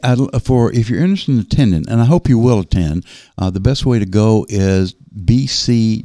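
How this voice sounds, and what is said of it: Southern American accent. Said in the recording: “with my southern accent”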